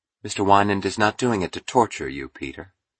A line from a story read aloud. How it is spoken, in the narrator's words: said Dominique calmly